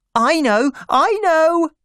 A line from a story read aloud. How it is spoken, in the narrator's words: said my little sister excitedly